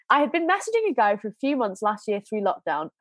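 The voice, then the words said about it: Congested, nasal voice. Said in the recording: “I am suffering with hay fever ... I'm very like sinusy ... my voice isn't going to sound great”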